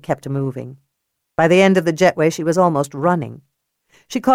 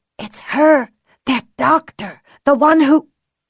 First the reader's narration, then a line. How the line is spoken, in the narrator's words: the woman whisper